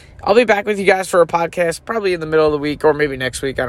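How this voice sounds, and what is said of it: Congested, strained voice. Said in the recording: “my allergies have been killing me this week, so my voice isn't that great”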